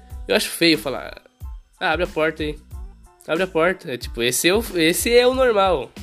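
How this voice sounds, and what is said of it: Speaker's own regional Brazilian accent. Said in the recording (Portuguese): “eu tento tirar meu sotaque ... Cara, esse é o meu sotaque, mas eu não gosto. Eu acho feio”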